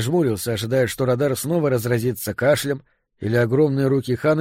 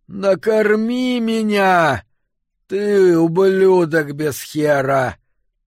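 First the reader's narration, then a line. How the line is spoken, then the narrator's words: Growled. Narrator (Russian): прорычала она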